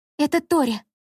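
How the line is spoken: Frightened exclamation. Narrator (Russian): испуганно воскликнула Лина

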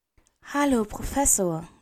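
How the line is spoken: Gentle. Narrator (German): sagt sanft

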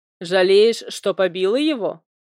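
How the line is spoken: Snide question. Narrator (Russian): ехидно поинтересовался вредный Нейн

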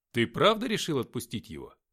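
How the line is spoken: Calm question. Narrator (Russian): спокойно спросил Алексей

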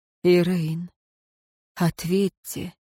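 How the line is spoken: Unexpectedly soft request. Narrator (Russian): неожиданно мягко попросил советник

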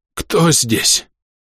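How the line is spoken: Hoarse rasp, coughing. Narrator (Russian): прохрипел он, надрывно кашляя

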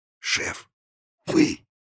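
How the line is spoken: Breathless astonishment. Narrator (Russian): выдохнул Анисий, изумленно

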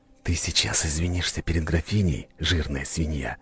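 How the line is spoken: Friendly whisper in ear. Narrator (Russian): прошептал ему на ухо, самой дружелюбной улыбкой

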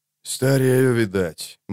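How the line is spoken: Grumbling. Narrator (Russian): буркнул он, немного погодя

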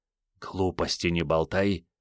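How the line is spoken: Harsh whispered snap. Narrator (Russian): шепотом рявкнул Андрей

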